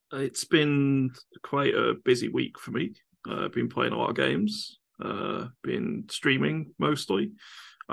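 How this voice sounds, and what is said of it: Worn-out, strained voice. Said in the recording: “My voice is not great tonight. I've been streaming really heavily the last few days for 7-8 hours a day. So my voice is kind of gone at the moment.”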